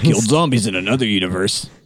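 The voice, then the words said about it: Imitates another person's voice. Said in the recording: “my Bruce Campbell impression”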